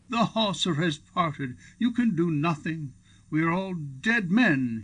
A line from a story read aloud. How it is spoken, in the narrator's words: he yelled